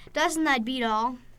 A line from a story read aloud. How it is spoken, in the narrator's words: He chuckled